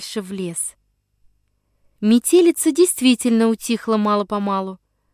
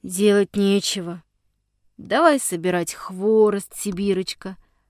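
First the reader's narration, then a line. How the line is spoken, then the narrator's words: Glum old man. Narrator (Russian): произнес уныло дедушка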